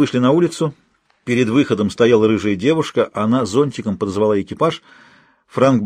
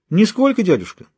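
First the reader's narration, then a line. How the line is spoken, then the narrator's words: Calm. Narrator (Russian): спокойно ответил племянник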